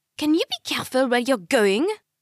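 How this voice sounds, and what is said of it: Strong French accent, hissed. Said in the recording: “A lady with a strong French accent hisses.”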